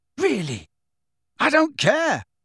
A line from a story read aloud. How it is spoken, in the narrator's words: Harry yelled at them